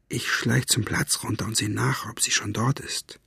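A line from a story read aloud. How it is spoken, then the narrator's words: Whispering. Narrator (German): wisperte er Zauberzunge zu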